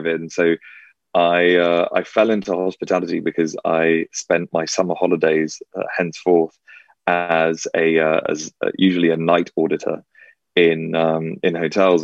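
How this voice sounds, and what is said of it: English accent. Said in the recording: “this English accent”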